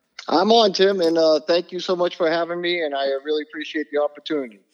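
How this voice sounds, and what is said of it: New England accent. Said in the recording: “I catch a little bit of that fun New England accent ... it comes from New Bedford, Mass, just south of Boston”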